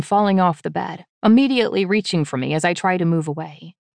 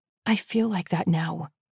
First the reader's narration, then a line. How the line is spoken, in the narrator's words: I mutter quietly, hating myself for admitting it